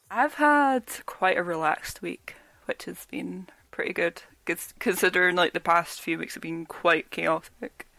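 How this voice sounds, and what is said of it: Weak, fading voice. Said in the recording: “as you guys can probably tell, my voice is a bit weak”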